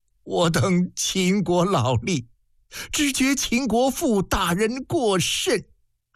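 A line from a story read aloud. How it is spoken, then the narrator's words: Choked voice. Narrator (Chinese): 主书吏一声哽咽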